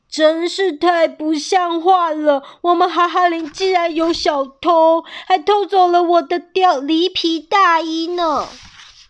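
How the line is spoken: Loud clamor, beaver. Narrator (Chinese): 河狸阿奇 大嚷嚷着

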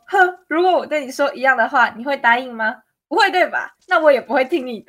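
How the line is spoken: Scornful laughing. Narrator (Chinese): 小刚就很不屑的笑说

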